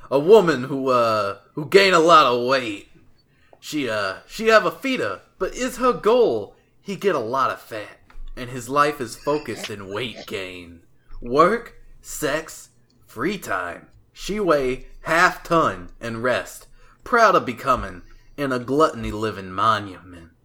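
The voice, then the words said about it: Put-on New Jersey accent. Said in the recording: “I don't know how to do a Greek accent, so I'm just gonna do a New Jersey accent.”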